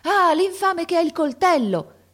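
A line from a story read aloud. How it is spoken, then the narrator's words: Man shouting. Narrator (Italian): gridò un uomo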